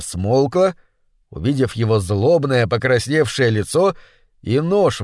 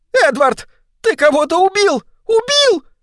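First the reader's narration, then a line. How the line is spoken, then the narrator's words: Screaming. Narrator (Russian): завопила она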